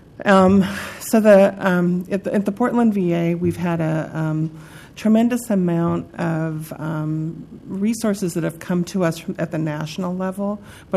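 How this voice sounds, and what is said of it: Strained, hoarse voice. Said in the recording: “excuse me, I'm losing my voice.”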